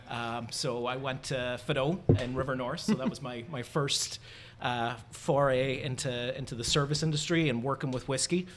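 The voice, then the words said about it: Irish accent. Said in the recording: “if you can already tell by the accent and the red beard, I'm Irish.”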